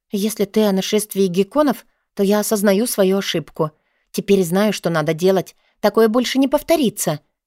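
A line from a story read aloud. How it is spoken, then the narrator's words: Plain. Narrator (Russian): сказала я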